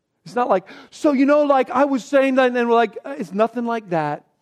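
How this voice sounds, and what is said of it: Bad impression of a teenage girl. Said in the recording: “That was a bad impression”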